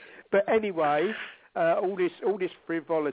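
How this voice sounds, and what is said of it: Usual voice. Nothing is said of it.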